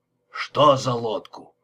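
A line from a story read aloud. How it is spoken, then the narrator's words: Grumbling. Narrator (Russian): пробурчал Лепски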